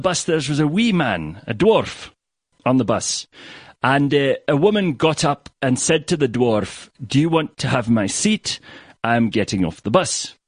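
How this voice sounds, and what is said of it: Billy Connolly Scottish accent impression. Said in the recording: “I'm not going to keep up the Billy Connolly accent the whole way through.”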